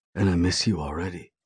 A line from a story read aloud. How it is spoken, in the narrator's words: he says in a serious tone